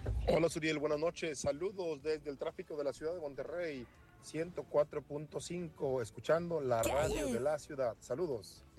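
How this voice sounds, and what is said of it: Deep polished radio announcer voice. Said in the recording (Spanish): “tienes voz de locutor”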